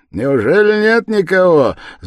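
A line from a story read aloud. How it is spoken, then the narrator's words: Ringing cheerful shout. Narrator (Russian): звонко и весело закричал подошедший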